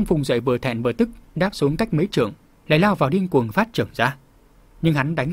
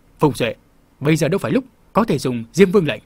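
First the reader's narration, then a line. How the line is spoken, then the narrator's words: Shout. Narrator (Vietnamese): lão ma quát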